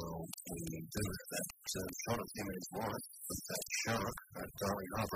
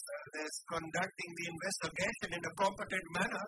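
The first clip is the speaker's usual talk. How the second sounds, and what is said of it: Put-on Indian accent. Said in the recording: “Doing my Indian voice.”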